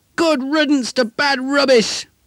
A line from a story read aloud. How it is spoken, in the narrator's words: His friends ... yelling